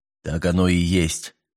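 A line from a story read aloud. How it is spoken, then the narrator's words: Quiet. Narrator (Russian): негромко произнес он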